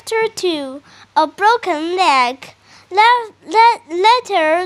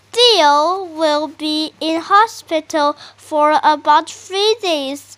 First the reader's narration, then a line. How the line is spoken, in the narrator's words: said